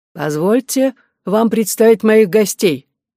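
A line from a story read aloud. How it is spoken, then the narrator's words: Sudden loud declaration. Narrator (Russian): вдруг достаточно громко заявил Эллиот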